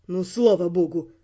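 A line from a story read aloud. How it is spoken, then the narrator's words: Grumble. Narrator (Russian): проворчал Эрл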